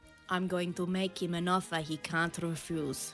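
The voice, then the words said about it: Poor put-on Italian accent. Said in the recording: “That is the worst accent. ... I'm trying to put my Italian on and it's not working. ... you're Italian and that sounds nothing like Italian.”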